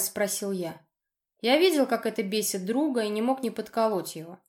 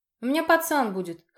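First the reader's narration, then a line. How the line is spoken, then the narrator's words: Wry snort. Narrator (Russian): хмыкнул я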